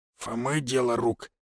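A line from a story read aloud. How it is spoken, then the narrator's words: Whispered question. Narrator (Russian): шепотом поинтересовался он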